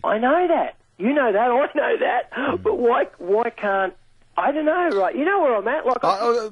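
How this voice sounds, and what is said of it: Frustrated voice, sarcastic laughter. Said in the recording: “I can hear the frustration in your voice. ... laugh sarcastically”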